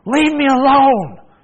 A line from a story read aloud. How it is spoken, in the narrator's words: yelled